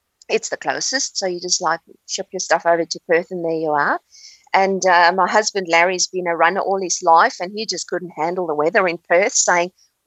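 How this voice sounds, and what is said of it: South African accent. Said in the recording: “I've detected a South African accent.”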